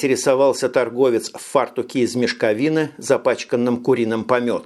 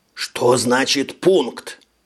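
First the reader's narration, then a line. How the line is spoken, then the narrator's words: Hiss. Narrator (Russian): Прошипел Штоллер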